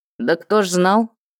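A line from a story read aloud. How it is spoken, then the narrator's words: Mage grumbling. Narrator (Russian): ворчал маг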